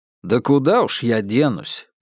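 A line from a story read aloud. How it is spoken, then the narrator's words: Grumbled. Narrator (Russian): проворчал Бабкин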